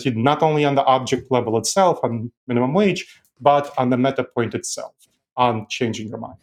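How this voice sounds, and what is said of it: European-accented English. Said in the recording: “I wonder if your accent makes it easier for you to persuade ... You're a dispassionate European.”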